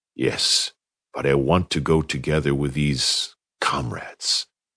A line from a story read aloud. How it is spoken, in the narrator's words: he whispered